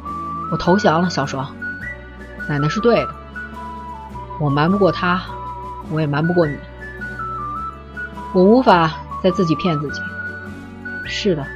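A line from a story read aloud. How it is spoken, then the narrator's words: Hoarse. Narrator (Chinese): 他哑声说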